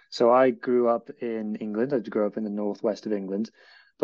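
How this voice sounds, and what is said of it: Northwest English accent. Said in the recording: “everyone can probably tell by my accent that I'm not a local to West Wales”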